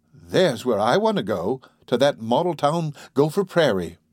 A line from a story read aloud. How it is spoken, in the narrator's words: said Carol